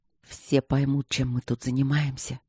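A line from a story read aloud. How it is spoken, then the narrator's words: Breathless muffled mumble. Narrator (Russian): пробормотал он, уже целуя ее в шею, задерживая дыхание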